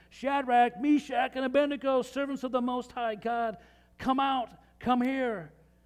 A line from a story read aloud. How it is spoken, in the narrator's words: Nebuchadnezzar yelled